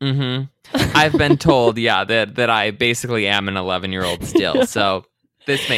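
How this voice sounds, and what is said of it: Usual voice. Nothing is said of it.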